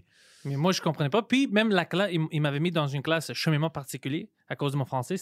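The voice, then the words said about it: Greek accent in French. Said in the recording (French): “tu as un accent grec”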